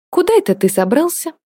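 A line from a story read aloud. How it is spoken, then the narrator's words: Cheerful question. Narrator (Russian): весело поинтересовалась Диана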